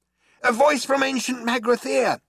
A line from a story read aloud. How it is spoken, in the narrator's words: shouted Zaphod